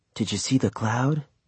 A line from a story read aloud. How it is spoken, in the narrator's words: Petey whispered